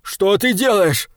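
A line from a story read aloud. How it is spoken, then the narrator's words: Yelling. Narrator (Russian): завопил он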